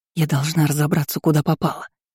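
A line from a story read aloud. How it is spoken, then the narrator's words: Muttered aloud. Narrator (Russian): пробормотала вслух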